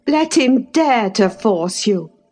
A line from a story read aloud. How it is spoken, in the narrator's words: I cried